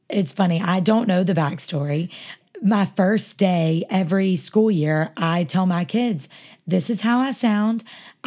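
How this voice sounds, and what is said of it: Hoarse, raspy voice. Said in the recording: “you have a hoarse voice ... I have a raspy voice.”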